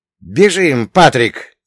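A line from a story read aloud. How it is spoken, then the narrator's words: Shouted. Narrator (Russian): крикнул я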